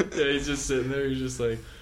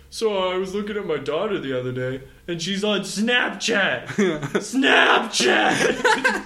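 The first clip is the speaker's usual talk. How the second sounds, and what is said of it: Screaming imitation of another person's voice. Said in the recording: “Just screaming into the microphone ... That's my Louis impression. Just screaming.”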